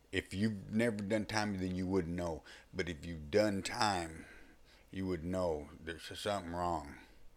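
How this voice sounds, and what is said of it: Texan Southern US accent. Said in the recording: “my accent. You know, it's obvious I'm from Texas or the South”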